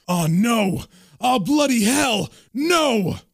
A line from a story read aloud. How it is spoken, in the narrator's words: John is horrified and he yells out